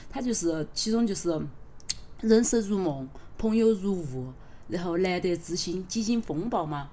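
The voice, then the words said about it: Sichuanese dialect. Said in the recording (Chinese): “我就用四川话就把歌词很直白的念出来”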